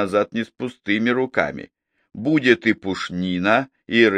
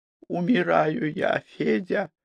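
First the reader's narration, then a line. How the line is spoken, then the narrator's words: Weak voice. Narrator (Russian): слабым голосом произнесла Глафира Савельевна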